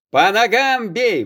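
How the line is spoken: Shout. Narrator (Russian): выкрикнул Захар

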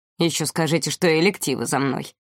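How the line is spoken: Gloomy joke. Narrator (Russian): мрачно пошутил Александр

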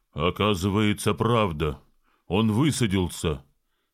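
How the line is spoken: Plain. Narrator (Russian): сказал мельник

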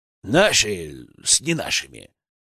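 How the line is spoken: Grumbling. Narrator (Russian): проворчал Петрович

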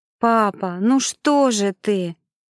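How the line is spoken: Desperate silent exclamation. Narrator (Russian): в отчаянии воскликнула она, мысленно обращаясь к небу

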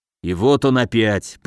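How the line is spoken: Grumbled. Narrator (Russian): проворчал Камбулат

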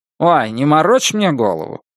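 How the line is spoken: Grumbling demand. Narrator (Russian): уже обычным ворчливым тоном потребовал шеф

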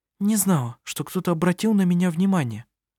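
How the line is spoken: Nervous mutter. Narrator (Russian): взволнованно пробормотала она

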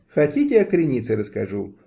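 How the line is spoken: Forced cheerfulness. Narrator (Russian): встрепенулась нарочито весело Галя Черешня

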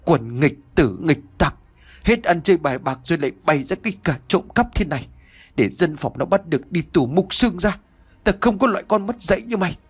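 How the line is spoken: Old man panting, scolding. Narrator (Vietnamese): Ông cụ tức uất lên vừa thở hổn hển vừa nói như mắng

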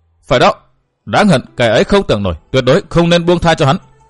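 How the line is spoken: Raised voice. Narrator (Vietnamese): Mộ Dung song cao giọng

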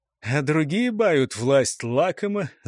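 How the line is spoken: Laughing. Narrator (Russian): засмеялся Потыка

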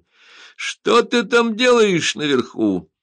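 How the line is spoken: Shouting while laughing. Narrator (Russian): смеясь, закричал португалец

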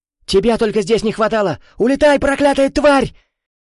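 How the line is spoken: Panicked yelling. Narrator (Russian): Он в панике заорал

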